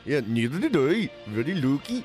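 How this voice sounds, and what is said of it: Imitates another person's voice. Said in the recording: “I don't know what sort of accent that was, man. ... It's my Cristiano Ronaldo impression.”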